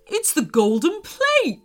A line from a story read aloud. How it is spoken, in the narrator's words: shouted Nigel, excitedly